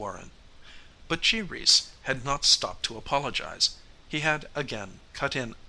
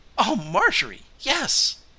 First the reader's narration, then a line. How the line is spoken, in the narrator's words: cried Bernice